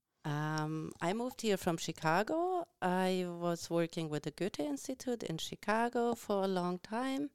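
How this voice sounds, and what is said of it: Noticeable German accent. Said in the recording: “The accent is undeniable. I'm hearing it. I can't even overhear that. ... I'm from the region that's called the Saarland.”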